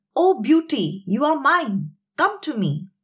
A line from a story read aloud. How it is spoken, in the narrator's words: shouted